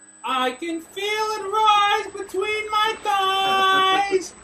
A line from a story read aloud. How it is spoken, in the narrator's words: cried the fair young maiden